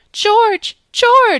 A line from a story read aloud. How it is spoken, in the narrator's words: she cried when she could speak